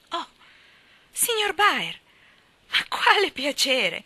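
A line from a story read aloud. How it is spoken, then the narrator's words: Exclaiming. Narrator (Italian): esclamò Joe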